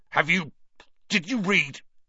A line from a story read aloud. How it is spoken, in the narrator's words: he spluttered